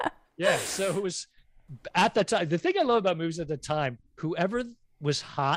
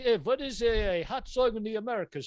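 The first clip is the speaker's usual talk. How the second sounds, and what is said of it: Put-on German accent. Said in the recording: “that's my German. Pretty good. Pretty ... solid ... German ... accent. ... Very good.”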